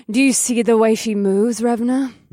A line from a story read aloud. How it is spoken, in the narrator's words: Vesta purred